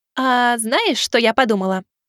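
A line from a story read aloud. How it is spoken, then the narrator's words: Cheerful chatter. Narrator (Russian): Продолжала весело болтать Миваки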